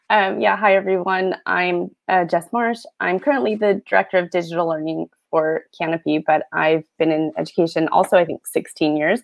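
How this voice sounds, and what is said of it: American accent. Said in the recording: “You probably detect my American accent.”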